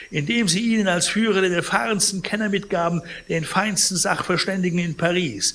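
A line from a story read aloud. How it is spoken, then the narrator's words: Indignant shout. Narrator (German): rief Pons empört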